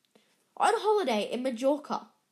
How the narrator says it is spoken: snapped Aunt Petunia

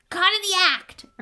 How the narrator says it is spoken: Ernie yelled, his face stark white

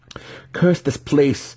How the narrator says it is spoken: Alton spat

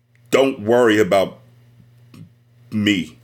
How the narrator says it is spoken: said

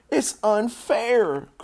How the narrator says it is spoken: cried Fern

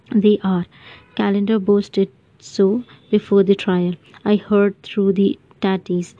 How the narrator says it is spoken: said

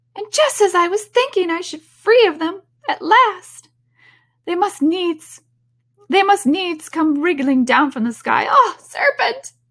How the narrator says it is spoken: continued the pigeon, raising its voice to a shriek

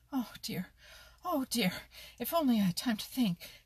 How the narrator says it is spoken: panted Danny Meadow Mouse

